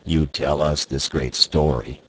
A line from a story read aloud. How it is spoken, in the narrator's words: he said